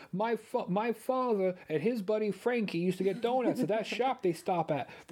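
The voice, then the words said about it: New York accent. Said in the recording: “is from New York. He can use that accent”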